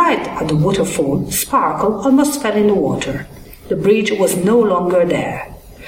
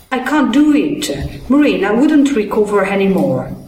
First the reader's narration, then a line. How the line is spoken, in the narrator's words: cried in despair